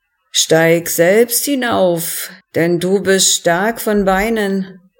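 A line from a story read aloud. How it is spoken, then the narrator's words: Slurred mumbling. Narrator (German): lallte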